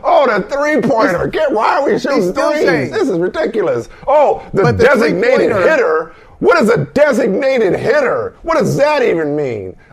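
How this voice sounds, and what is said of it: Bob Ryan impression. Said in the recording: “this is my Bob Ryan impression”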